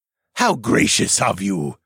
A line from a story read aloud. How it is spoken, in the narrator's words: the man snarled